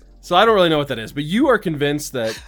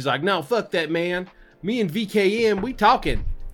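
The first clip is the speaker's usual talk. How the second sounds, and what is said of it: Redneck accent turning urban. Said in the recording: “I don't even know what that accent was ... That started really redneck and then turned really ... urban”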